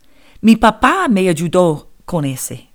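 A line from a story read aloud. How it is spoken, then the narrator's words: Exclaiming. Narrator (Spanish): Billy exclamó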